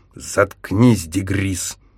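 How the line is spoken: Grumbling man. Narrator (Russian): проворчал он

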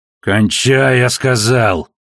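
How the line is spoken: Growled. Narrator (Russian): зарычал конёчек

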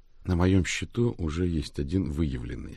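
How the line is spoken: Plain. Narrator (Russian): сказал Рик

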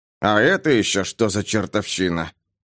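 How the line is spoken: Muttering. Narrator (Russian): пробормотал Гарри

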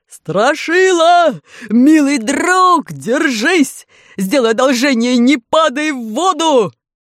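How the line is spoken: Deafening shout through funnel. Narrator (Russian): приложил ко рту как рупор и оглушительно заорал

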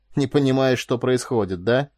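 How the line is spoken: Sighing. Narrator (Russian): Корделия вздохнула

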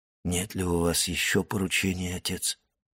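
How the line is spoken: Hollow, muffled question. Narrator (Russian): спросил Максимилиан глухим голосом

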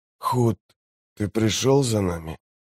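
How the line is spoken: Hoarse, barely intelligible croak. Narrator (Russian): Слова ясно прозвучали в сознании, но наружу вырвались лишь хриплые звуки

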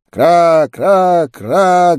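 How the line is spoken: Guttural crows cawing. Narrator (Russian): гортанно кричали вороны на покатых городских крышах

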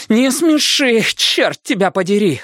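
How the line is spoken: Breathless exhale. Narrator (Russian): выдохнула Алиса

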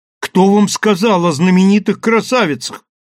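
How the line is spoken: Indignant exclamation. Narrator (Russian): воскликнул почти негодующий Даярам

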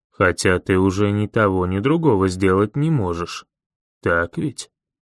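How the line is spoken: Growled. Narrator (Russian): чего-то такое прорычал

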